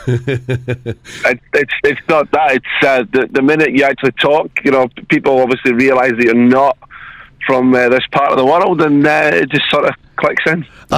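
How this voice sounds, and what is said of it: Noticeable regional accent. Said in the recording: “Oh, listen to the accent... I love that you got the accent... you kept it”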